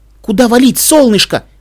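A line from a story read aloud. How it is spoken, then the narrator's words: Exclaiming. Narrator (Russian): воскликнул Твай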